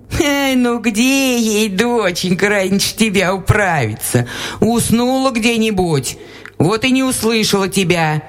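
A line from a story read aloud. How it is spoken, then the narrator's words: Laughing, old woman. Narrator (Russian): засмеялась баба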